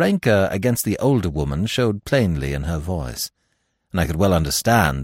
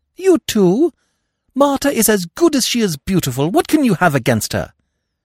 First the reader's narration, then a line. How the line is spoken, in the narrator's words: cried the boy